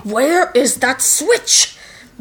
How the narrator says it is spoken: Barbarous growls furiously

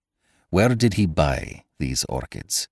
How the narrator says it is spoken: He asked evenly

